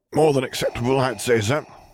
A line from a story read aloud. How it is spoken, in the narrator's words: he grunted